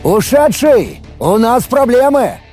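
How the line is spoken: Shouted. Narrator (Russian): прокричал я

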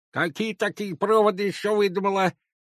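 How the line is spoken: Angry toothless old woman mumble. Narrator (Russian): сердито прошамкала старуха

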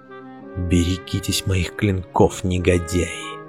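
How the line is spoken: Whisper. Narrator (Russian): прошептал

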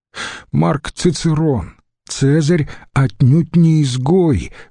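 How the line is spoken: Pleading objection. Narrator (Russian): возразил умоляющим тоном Требатий

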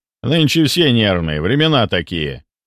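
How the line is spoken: Man's short laugh. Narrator (Russian): хохотнул мужчина

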